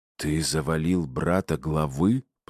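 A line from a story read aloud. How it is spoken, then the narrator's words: Hissing into ear. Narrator (Russian): прошипел мне в ухо Игнат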